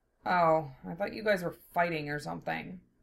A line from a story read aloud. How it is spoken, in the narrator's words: Zell grumbled